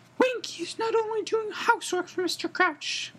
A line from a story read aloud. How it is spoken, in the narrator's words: Winky squeaked indignantly, swaying worse than ever